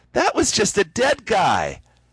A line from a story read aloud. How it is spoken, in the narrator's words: Melody said loudly